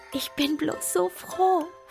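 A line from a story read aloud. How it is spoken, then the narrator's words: Soft whisper. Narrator (German): flüsterte sie leise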